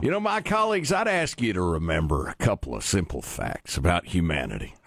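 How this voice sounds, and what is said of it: Folksy Southern Illinois voice. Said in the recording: “I'm from Southern Illinois, so I'll be speaking in a folksy voice.”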